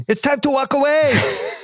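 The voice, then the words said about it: Bad put-on Brazilian accent. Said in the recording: “screams at him in Brazilian? ... That is the worst Brazilian accent. ... I don't even know what that was.”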